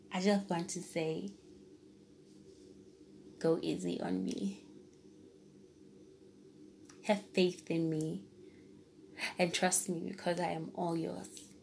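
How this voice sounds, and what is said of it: Emotional voice. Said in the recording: “tell from my voice that I'm getting emotional.”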